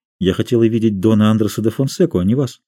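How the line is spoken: Quiet and rapid. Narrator (Russian): проговорила тихо и быстро

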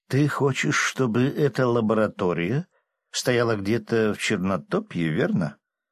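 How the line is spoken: Pointedly thoughtful question. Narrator (Russian): демонстративно задумчивым тоном спросила баронесса

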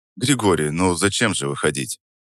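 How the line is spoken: Calm, slightly lazy. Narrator (Russian): Произнес я спокойно, даже с легкой линцой в голосе

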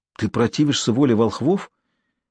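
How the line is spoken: Frightened whisper. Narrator (Russian): испуганно прошептала княгиня

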